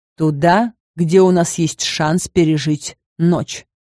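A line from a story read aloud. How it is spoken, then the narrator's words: Growl. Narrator (Russian): рыкнул он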